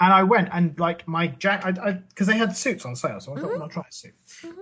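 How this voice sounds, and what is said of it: Usual voice. Nothing is said of it.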